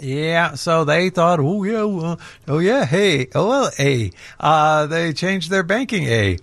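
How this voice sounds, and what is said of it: Bad fake Canadian accent. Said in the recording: “that bad Canadian accent”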